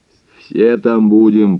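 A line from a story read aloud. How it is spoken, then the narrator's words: Sudden hoarse proclamation. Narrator (Russian): провозгласил вдруг Мозес хрипло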